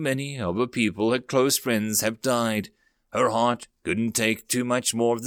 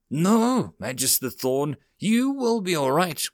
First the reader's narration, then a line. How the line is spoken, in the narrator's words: Shireen cried, tears falling